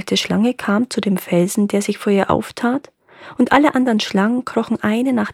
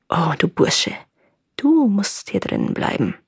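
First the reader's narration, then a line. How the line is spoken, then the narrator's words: Hissing old snake. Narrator (German): die alte Schlange sagte zu ihm mit ihrer zischenden Stimme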